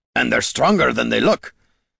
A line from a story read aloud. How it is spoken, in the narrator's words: With a grunt of exertion